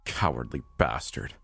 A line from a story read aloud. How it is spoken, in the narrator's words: I muttered to his body